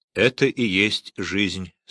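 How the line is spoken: Plain. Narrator (Russian): сказал Бобби

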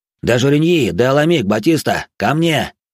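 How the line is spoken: Loud command. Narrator (Russian): громко скомандовал он

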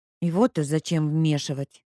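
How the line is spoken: Grumble. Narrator (Russian): буркнула Леська

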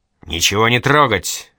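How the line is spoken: Bark. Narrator (Russian): рявкнул следователь

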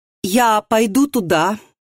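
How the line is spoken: Loud, nervous. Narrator (Russian): громко, чтобы все слышали, сказала она, ее прошиб холодный пот

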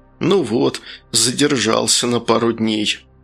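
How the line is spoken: Chubby man's annoyed mutter. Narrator (Russian): толстячок пальто сплюнул с досады и пробормотал

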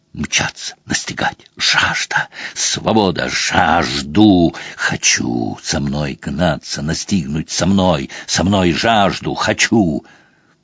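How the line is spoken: Wild triumphant howled words. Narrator (Russian): Пейсер снова дико и торжествующе взвыл, потом сквозь вой прорвались слова

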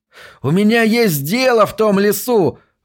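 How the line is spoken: Shouted while running. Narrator (Russian): выкрикнул Уайзман на бегу

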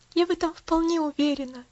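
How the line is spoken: Sighed with quiet joy. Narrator (Russian): вздохнула Пуляна, глаза ее светились тихой радостью

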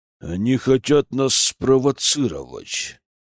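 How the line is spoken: Growling, angry. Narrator (Russian): прорычал маршал

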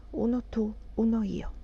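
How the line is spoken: Meek, sluggish whisper. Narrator (Italian): sussurravo, mite e letargica

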